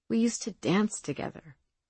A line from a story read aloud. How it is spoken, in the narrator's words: Zee said softly, remembering the lovely feeling